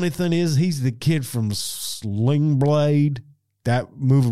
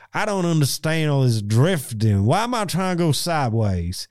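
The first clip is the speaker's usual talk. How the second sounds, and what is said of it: Lucas Black's Southern drawl impression. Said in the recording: “the real bad drawl, Lucas Black ... they basically got him to do that accent for Tokyo Drift”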